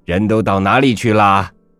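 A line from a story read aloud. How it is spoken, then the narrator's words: Shouting loudly. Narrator (Chinese): 先生在书房里边大叫起来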